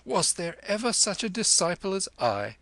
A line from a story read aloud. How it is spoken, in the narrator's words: he cried merrily to the lama